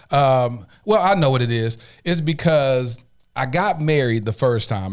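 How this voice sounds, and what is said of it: Emotional, near-tearful voice. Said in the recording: “getting emotional. I don't know why I'm getting emotional ... why am I about to cry”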